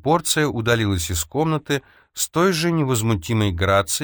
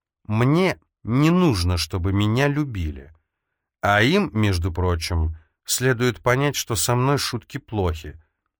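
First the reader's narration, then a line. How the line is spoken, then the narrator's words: Icy cold tone. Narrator (Russian): Эльза ледяным тоном произнесла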